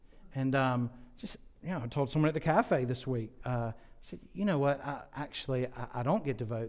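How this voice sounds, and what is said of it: American English accent. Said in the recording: “They've heard my accent. They say, you're an American.”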